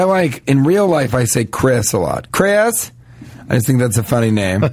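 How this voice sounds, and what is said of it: Usual voice. Nothing is said of it.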